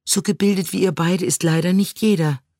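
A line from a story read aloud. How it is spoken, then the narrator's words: Sighing. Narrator (German): seufzte Siri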